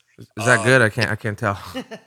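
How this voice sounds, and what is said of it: Sarcastic deadpan question. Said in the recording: “I'm being sarcastic.”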